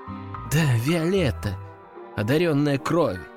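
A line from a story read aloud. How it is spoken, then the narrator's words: Sigh, young woman. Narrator (Russian): вздохнула девушка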